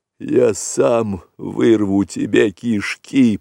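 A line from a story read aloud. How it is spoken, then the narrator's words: Hoarse rasp. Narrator (Russian): прохрипел вожак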